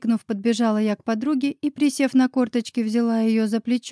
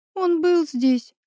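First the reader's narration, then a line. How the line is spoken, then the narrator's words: Tearful sobbing. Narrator (Russian): всхлипнула Оля, подняв на меня заплаканные глаза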